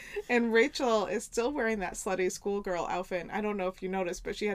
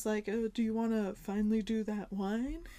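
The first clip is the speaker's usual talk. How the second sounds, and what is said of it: Impression of Ross from Friends. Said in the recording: “Great Ross impression.”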